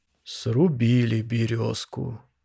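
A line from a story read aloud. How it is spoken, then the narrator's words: Deep voice in silence. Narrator (Russian): в полной тишине пробасил Усевич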